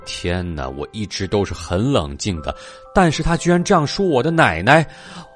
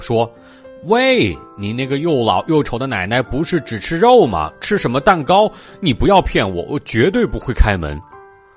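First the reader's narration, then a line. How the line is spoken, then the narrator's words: Loud shout. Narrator (Chinese): 猪小弟大声喊道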